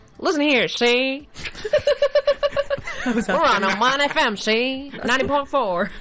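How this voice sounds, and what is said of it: 1940s gangster accent. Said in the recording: “give me your best 40s gangster accent ... Al Capone, is that you? ... It's actually really good.”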